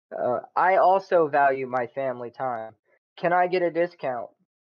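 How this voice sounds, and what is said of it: Imitates a demanding customer's voice. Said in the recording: “my best impersonation of a customer”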